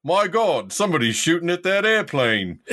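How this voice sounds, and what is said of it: Botched British accent, New York-tinged. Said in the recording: “You didn't even use a British accent ... Was that a British accent? ... Yeah, but I was still in the New York one, so I kind of fucked it up.”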